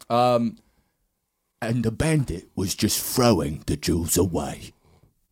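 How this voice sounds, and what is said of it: Michael Caine impression. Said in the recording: “I have Michael Caine, but it's just nothing. ... Oh, yeah, yours is better. ... That's not bad,”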